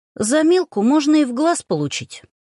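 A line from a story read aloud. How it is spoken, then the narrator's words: Sharp, surprised reply. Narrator (Russian): резко ответила, удивляясь наглости некоторых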